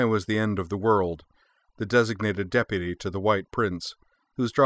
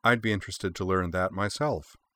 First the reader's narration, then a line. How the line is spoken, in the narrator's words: remarked Kanai Otori quietly